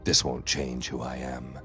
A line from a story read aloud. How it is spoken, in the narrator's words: I said quietly